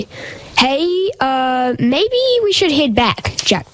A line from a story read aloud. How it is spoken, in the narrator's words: shouted Jackson with fear in his eyes